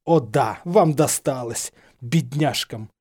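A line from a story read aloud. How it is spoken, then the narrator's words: Irritated snort. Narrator (Russian): хмыкнул слизеринский декан раздраженно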